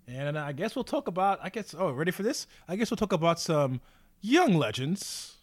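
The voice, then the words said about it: Smooth radio announcer voice. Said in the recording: “Hit you with that little radio voice. ... that little late night television swag”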